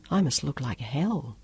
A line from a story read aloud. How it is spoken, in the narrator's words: she whispered